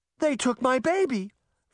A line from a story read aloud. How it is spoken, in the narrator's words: Veronica cried